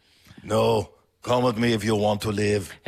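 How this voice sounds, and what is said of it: Robotic voice with German accent. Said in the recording (Danish): “Why does it talk with a German accent?”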